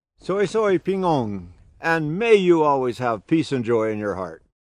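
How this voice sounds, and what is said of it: Speaks English with a noticeable accent. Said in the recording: “I'm hoping you're all laughing with my accent.”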